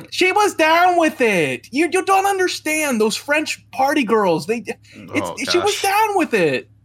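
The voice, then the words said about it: Quentin Tarantino impression. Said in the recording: “Have you practiced his accent? ... You sound just like him. Right. That is scary how quickly. I've never heard of somebody speaking like him before, and you hit it on the head.”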